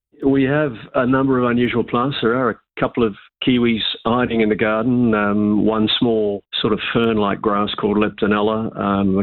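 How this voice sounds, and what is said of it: New Zealand accent. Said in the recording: “from your accent, I know that you and your wife come originally from New Zealand”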